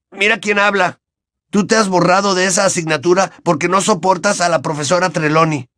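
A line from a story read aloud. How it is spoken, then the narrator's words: Indignant exclamation. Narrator (Spanish): exclamó Ron indignado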